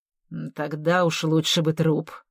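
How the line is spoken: Tense grumble. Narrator (Russian): проворчал полковник, ничуть не расслабившись

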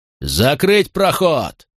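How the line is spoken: Roaring command. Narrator (Russian): проревел Макрон

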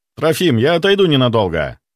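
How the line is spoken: Shouting after someone. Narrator (Russian): крикнул я вслед лекарю

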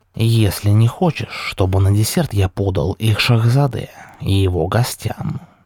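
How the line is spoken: Snakelike hiss in ear. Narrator (Russian): змеем прошипел Ильхами Эфенди на ухо Диму

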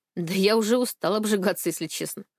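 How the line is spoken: Wry snort. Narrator (Russian): хмыкнул он

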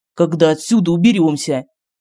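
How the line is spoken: Distrustful snort. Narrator (Russian): Медальон недоверчиво хмыкнул

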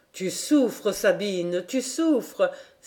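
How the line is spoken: Cry. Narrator (French): s'écria Xavier

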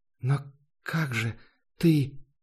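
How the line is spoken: Confused whisper. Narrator (Russian): по-прежнему шептала, не понимая, что происходит

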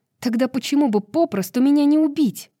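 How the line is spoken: Snapping retort. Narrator (Russian): Огрызнулась Брайс

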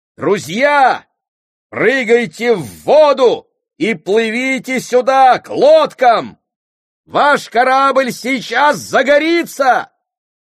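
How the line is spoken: Loud shout. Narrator (Russian): Громко крикнул товарищ Клевон матросам на палубе

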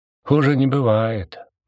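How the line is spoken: Gloomy. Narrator (Russian): мрачно отозвался Деготь

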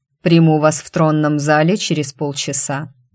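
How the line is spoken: Cold. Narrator (Russian): сообщил холодно

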